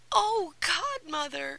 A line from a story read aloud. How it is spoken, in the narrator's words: cried